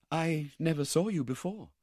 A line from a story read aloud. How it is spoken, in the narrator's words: said Rose faintly